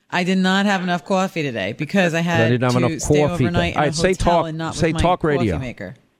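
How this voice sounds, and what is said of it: Mixed New York Philly accent. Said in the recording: “has like a mixed New York, Philly, New Jersey accent ... there is absolutely no New Jersey in my accent.”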